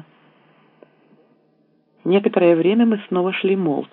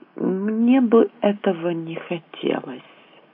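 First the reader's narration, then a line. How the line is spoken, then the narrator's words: Unexpectedly soft. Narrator (Russian): Наконец он сказал неожиданно мягко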